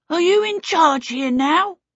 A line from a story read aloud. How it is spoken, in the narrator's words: this small blue person demanded in a small, hoarse voice